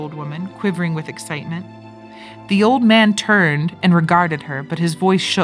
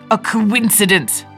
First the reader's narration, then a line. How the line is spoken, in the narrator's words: stammered the old man